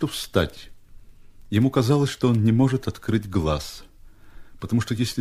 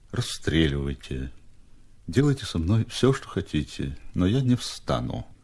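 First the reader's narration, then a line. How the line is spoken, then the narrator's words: Languid, barely audible. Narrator (Russian): Степа ответил бы томным, чуть слышным голосом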